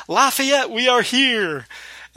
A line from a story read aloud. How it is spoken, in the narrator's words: he shouts